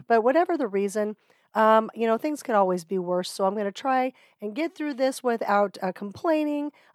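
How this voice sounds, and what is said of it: Voice sounds like she has a cold. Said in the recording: “You might be able to hear in my voice that I have been gifted a cold”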